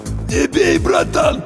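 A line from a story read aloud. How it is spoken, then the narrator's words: Wheezing plea. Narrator (Russian): прохрипел боец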